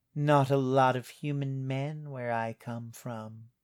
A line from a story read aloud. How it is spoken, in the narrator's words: purred